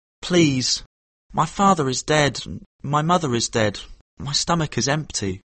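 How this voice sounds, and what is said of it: Sad, crying plea. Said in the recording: “cried Kim in his saddest voice”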